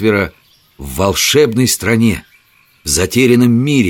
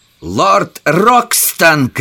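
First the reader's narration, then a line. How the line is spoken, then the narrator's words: Shout. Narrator (Russian): крикнул он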